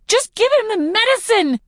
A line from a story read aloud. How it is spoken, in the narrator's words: I scream at her